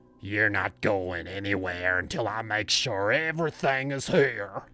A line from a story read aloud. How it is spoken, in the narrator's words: he growled